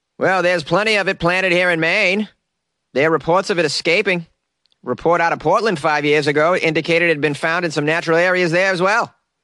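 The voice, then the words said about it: Weak put-on Maine accent. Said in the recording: “This isn't a very good Maine accent. I'm doing my best here, though.”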